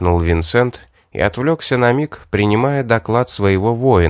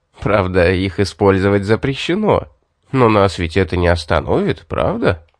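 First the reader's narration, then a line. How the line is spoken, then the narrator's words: Loud pleased laughter. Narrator (Russian): рассмеялся в полный голос, радуясь удачной шутке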